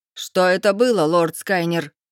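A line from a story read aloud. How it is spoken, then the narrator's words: Stranger barking. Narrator (Russian): рявкнул незнакомец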